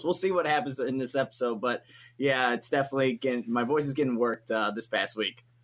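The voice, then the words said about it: Raspy, hoarse voice. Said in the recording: “if it sounds a little raspy ... It's a little hoarse”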